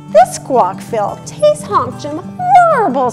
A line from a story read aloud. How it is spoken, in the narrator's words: screeched Harry